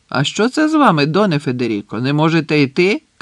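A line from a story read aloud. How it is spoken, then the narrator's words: Shouted. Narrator (Ukrainian): крикнув другий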